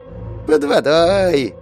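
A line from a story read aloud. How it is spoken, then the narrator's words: Cheerful goblin, grinning. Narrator (Russian): весело оскалился морской гоблин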